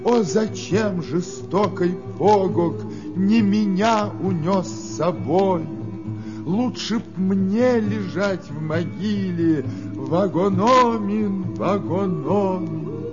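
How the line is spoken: Wailing, sobbing. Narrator (Russian): Долго с криками рыдала, долго плакала Ноконис

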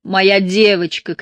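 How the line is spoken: Shouting. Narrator (Russian): кричала она, как будто не видела Шарлин еще с Лэмсона

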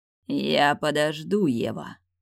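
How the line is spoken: Dangerous growl. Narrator (Russian): прорычал опасным тоном

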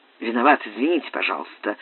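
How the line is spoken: Muttered apology. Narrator (Russian): пробормотал Франк

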